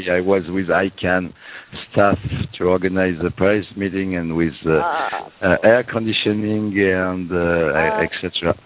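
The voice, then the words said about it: Weak, strained, losing voice. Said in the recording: “I lose my voice since the last 2 days... I am losing my voice”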